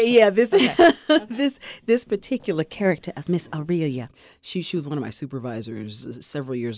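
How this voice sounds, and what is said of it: Usual voice. Nothing is said of it.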